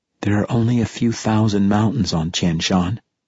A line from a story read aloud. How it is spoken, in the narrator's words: she said, her voice flat and unhappy